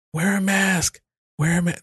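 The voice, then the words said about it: Impression of Joe Biden. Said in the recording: “That's Biden. That's my impression of Biden.”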